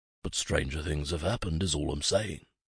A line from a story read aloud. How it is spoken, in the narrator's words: he added, under his breath